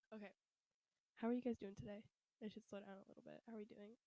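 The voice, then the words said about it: Breathless, slightly strained voice. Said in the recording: “I'm like out of breath ... I'm losing my voice”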